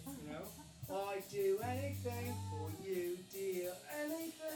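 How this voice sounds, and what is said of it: Put-on Cockney accent. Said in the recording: “British accent... Cockney... It's Cockney... It's Cockney accent.”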